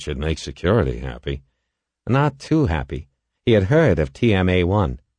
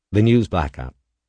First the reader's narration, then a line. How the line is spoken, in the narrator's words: said flatly